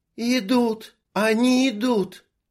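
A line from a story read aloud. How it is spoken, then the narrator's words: Breathless exhale. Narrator (Russian): выдохнула Анжелика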